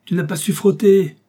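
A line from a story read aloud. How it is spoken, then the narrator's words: Shouting. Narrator (French): cria-t-il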